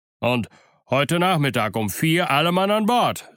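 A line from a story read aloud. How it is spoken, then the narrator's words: Calling after someone. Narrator (German): rief der Squire ihm nach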